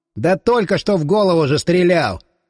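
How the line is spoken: Scoffing snort. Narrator (Russian): хмыкнул Тищенко

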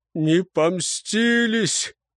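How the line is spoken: Man sobbing. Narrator (Russian): всхлипнул человек

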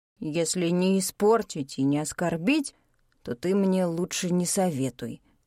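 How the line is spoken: Snorting remark. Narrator (Russian): хмыкнул Мару

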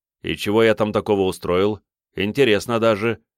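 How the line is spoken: Amused snort. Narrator (Russian): хмыкнул я

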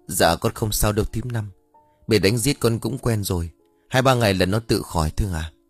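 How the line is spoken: Hurried, pained speech. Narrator (Vietnamese): khẽ nhăn mặt vì đau, rồi vội vàng lên tiếng

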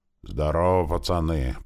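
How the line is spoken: Deep bass voice. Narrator (Russian): пробасил он

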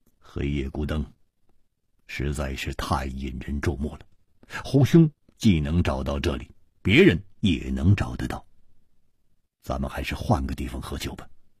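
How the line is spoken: Deep low voice. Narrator (Chinese): 歹独行沉声说

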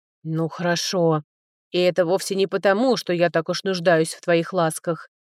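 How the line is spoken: Grumbling. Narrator (Russian): проворчал император

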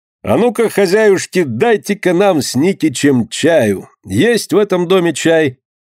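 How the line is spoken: Exaggeratedly loud, cheerful question. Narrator (Russian): нарочито громко и весело спросил дядя Лёка

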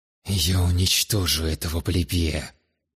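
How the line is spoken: Angry, emotional, through clenched teeth. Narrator (Russian): Зло процедил сквозь зубы Таосим, поддавшись на короткий миг эмоциям

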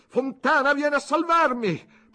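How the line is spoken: Shout. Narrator (Italian): gridò

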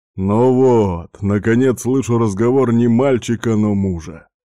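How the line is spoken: Chuckling. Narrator (Russian): хохотнул он

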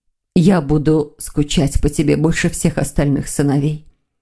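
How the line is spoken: Whispered. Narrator (Russian): прошептала Лилия

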